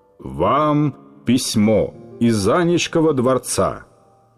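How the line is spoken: Pompous servant's tone. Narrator (Russian): важным тоном, каким говорят слуги в старинных мелодрамах, лакей сказал

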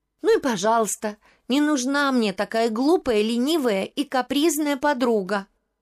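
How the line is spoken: Angry shout. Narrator (Russian): София рассердилась и выкрикнула

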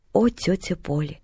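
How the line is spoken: Solemn proclamation. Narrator (Russian): торжественно провозгласила Поллианна

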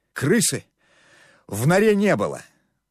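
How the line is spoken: Triumphant exhale. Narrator (Russian): с торжеством выдохнул Сокольничий

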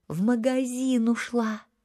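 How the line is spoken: Two voices exhaling together. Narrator (Russian): Ира с Зиной вместе выдохнули

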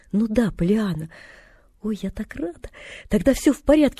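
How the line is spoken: Girl's relieved exclamation. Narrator (Russian): воскликнула девочка и облегченно вздохнула

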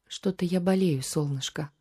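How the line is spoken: Tender, breathless, smiling. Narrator (Russian): ласково улыбнулась государыня, отдышавшись

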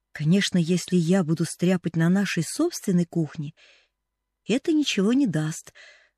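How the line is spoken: Plain. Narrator (Russian): сказала Поллианна

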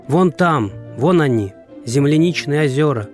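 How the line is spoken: Shouting. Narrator (Russian): крикнула Маша

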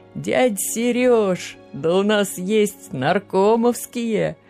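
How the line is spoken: Joyful loud talking. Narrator (Russian): радостно и громко разговаривать

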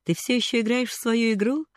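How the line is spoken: Speaking after laughter. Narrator (Russian): сказал он, отсмеявшись

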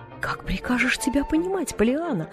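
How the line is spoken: Exclamation. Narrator (Russian): воскликнула тетя Поли

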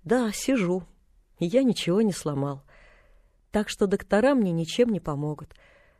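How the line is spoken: Sad. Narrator (Russian): грустно добавил

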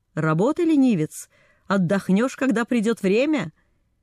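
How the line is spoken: Stern shout. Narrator (Russian): монах строго крикнул

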